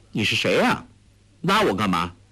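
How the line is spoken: Cold. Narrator (Chinese): 黄蓉 冷冷地说

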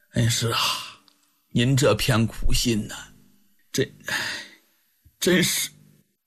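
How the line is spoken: Choked voice. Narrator (Chinese): 曾泰说着说着呢，嗓子竟然有点哽咽住了

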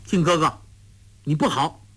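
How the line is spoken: Stern, mildly angry. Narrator (Chinese): 黄蓉忽然俏脸一板，眉间隐现怒色，说道

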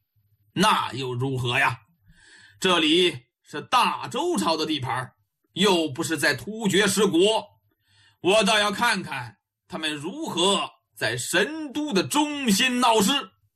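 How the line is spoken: Cold snort. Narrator (Chinese): 梅迎春冷冷的哼了一声

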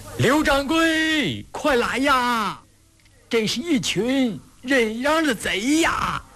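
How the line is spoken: Piercing squealing screams. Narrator (Chinese): 杀猪似的大叫

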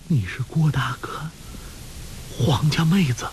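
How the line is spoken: Trembling voice. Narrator (Chinese): 穆念慈悠悠醒来 颤声道

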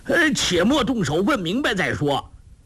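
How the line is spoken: Repeated urgent calls. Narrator (Chinese): 彭连虎连叫

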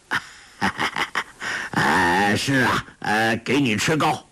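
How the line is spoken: Laughing. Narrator (Chinese): 笑道

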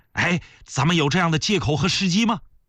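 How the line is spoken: Hurried laughing question. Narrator (Chinese): 鳌拜也笑了，他急忙问

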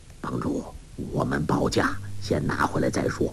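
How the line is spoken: Low voice. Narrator (Chinese): 彭长老低声说

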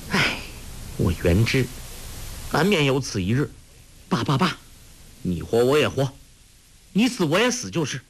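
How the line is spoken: Sighing. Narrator (Chinese): 黄蓉叹道

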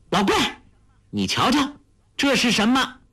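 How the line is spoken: Loud scolding. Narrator (Chinese): 黄蓉大声呼斥

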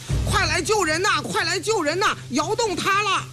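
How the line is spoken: Urgent shouting. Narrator (Chinese): 刘栋绍及时发现了情况，立刻呼喊起来

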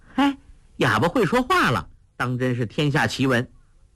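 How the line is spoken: Laughing. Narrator (Chinese): 黄蓉笑道

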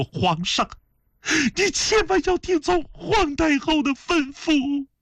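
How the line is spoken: Weeping bitterly, pleading. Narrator (Chinese): 声泪俱下的痛哭禀奏说

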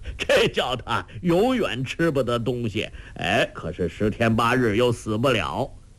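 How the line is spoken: Laughing. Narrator (Chinese): 周伯通笑道

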